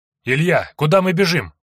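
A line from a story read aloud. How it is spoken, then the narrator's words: Breathless shout while running. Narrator (Russian): крикнул Андрей, стараясь не отставать от товарища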